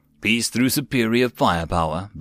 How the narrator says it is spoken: Blake said in a wise tone

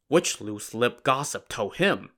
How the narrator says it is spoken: Lin Chong muttered

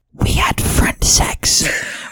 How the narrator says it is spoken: whispered Espio at the people at the lunch table

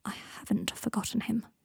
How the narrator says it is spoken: said Draco quietly

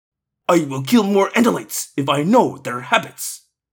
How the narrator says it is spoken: said gruffly

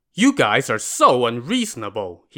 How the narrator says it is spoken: said angrily

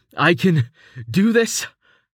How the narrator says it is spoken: he wheezed

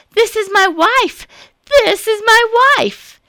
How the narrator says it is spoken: cried out

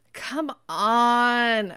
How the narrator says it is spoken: Amanda groaned

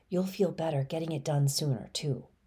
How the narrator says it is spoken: Mom whispers

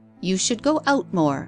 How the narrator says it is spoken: She said sharply

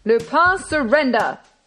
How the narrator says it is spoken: roared Ganimard

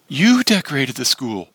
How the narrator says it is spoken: cried Maggie excitedly

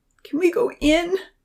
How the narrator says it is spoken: she sobbed

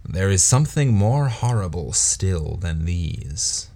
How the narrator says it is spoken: he added, shaking his head gloomily

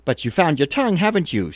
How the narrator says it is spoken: exclaimed

